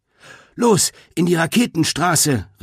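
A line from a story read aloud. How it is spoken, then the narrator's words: Called out to others. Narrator (German): rief Greta den anderen zu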